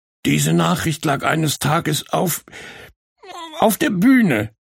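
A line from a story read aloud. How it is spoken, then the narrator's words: Sobbing. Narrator (German): schluchzte Borke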